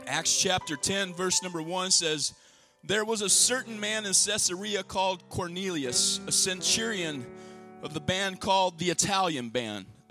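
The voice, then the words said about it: Voice nearly gone, strained. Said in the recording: “I am on the edge of losing my voice, and my ears are plugged.”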